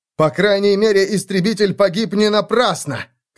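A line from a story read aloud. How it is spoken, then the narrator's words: Shout. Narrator (Russian): крикнул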